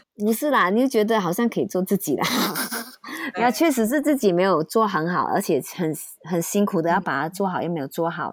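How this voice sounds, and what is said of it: Malaysian-accented Mandarin. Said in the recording (Chinese): “公司一直觉得我口音不 OK 啦，所以一定他们要我讲中文跟台湾讲的一模一样 ... 你们讲话口音这个就是原来的你”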